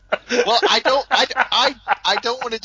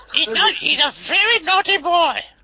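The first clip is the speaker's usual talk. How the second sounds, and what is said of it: Imitates another person's voice. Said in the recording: “do a Monty Python imitation ... He doesn't sound like Terry Jones.”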